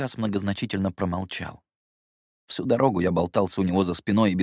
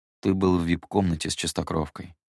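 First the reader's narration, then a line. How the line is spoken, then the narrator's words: Calm. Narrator (Russian): спокойно проговорил он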